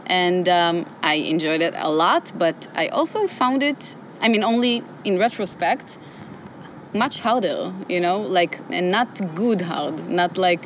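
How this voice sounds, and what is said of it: Speaks with a distinct accent. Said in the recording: “I love that accent. It's a cool accent.”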